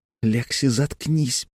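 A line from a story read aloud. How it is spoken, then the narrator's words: Whisper. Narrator (Russian): прошептал Тим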